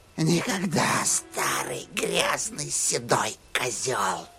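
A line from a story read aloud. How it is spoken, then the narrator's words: Whispered. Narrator (Russian): прошептала Рия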